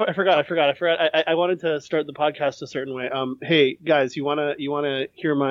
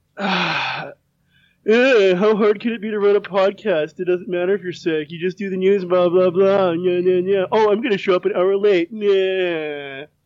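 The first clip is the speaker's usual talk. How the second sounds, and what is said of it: Imitates another person's voice. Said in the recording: “my podcast third host impression ... That sounds exactly like Jesse.”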